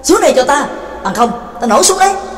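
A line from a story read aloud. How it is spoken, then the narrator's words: Impatient loud shout. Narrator (Vietnamese): Trắc Mộc Cường Ba đã hết kiên nhẫn, bèn lớn tiếng quát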